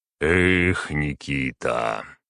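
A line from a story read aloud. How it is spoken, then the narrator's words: Sighing. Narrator (Russian): вздохнул Магнус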